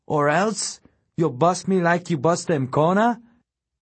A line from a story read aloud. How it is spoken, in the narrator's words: it screeched back